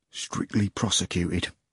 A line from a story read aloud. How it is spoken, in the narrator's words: the chairman whispered ever so quietly